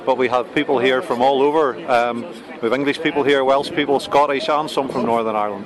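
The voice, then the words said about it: Northern Irish accent. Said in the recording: “I'm originally, as you'll guess from the accent, from Northern Ireland”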